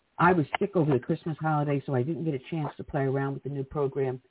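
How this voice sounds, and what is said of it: Slightly hoarse voice. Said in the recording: “my voice is still a little bit hoarse”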